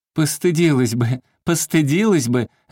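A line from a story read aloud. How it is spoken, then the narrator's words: Women shouting ringingly. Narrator (Russian): звонко кричали бабы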